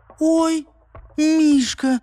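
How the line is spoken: Sudden surprised squeak. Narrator (Russian): вдруг пискнула она, завидя плюшевую игрушку

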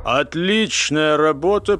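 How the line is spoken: Deep bass voice. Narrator (Russian): пробасил

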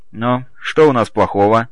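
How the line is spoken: Wry snort. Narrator (Russian): хмыкнул Григорий

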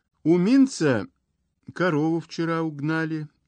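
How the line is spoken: Timid. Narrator (Russian): говорит Ляля робко

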